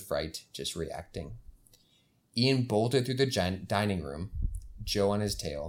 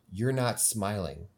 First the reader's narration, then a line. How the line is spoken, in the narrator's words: he said